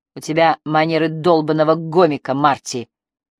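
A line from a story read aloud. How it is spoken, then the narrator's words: Contemptuous snort. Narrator (Russian): презрительно фыркнула Триция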